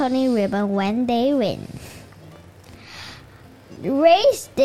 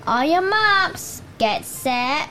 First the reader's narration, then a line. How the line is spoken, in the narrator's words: Cabell shouts